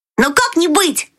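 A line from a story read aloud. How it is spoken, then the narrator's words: Cheerful exclamation. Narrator (Russian): весело воскликнул Фриц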